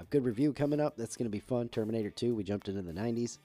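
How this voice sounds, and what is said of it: Nasal, stuffy congested voice. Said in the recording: “we're still sort of on the mend from being sick. You can probably still hear some nasal in both of our voices... I don't know if I sound nasally or stuffy or both or what have you, but I know I do.”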